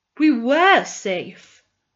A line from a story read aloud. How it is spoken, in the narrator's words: said bitterly